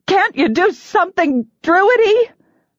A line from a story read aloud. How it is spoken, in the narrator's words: I shouted over the nearly deafening pounding of hooves